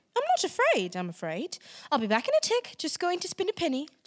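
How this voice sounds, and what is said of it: Put-on accent. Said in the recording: “are you doing accents again?”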